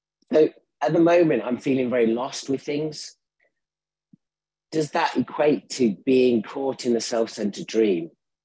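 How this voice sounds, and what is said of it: Slightly sore, throaty voice. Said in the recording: “I've got a bit of a sore throat.”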